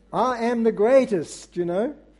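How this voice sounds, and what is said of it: Weak put-on American accent. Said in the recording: “my accent, my American accent leaves a bit to be desired”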